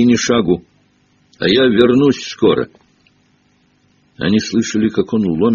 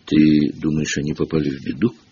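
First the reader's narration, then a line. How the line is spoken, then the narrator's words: Whisper. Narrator (Russian): прошептала Гермиона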